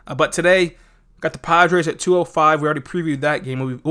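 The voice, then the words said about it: Sick, congested-sounding voice. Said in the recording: “you can probably tell by my voice, I'm pretty sick right now”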